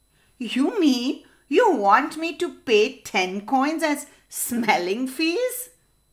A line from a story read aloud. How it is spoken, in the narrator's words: laughed the neighbor